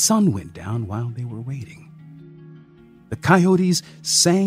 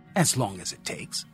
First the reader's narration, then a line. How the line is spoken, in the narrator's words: snapped back